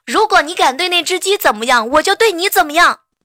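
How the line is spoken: Loud shout. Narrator (Chinese): 无伤大喊一声

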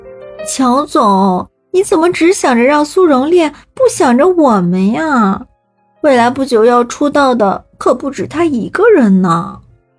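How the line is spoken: Forced smile, half-joking. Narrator (Chinese): 楚云薇脸上的表情有点僵硬，她扯出一抹笑容，似真似假的说道

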